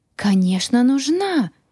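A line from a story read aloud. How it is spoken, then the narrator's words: Exclaiming. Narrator (Russian): воскликнул Грю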